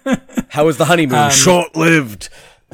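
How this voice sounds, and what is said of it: Derbyshire accent. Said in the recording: “great Derbyshire accent there. Perfect.”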